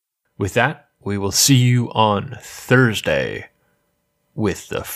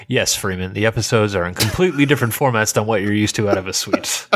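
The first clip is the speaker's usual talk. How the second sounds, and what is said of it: Impression of co-host's voice. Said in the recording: “your impression of me ... It was bang on. ... It's like listening to a mirror.”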